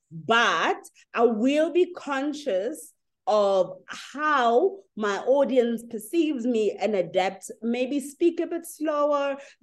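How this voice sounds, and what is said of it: African-accented English. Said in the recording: “As Africans, we're very loud and very dramatic in our language ... I'll never adapt my accent.”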